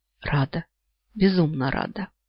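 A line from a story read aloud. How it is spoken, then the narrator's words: Whisper. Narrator (Russian): я прошептала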